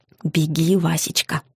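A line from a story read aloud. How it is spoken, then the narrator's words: Whisper. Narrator (Russian): зашептала я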